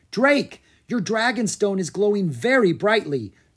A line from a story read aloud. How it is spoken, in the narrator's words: Gianna cried